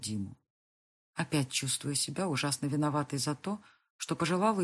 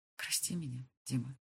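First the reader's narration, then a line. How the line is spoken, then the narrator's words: Barely audible. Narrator (Russian): едва слышно произношу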